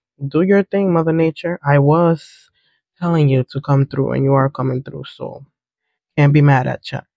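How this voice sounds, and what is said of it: Raspy, stuffy-nosed voice. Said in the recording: “I'm still dealing with my allergies, so my voice is gonna sound raspy. My nose might be a little bit stuffy. I might have to cough here and there.”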